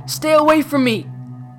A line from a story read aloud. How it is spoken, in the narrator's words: Harris yelled at Charlie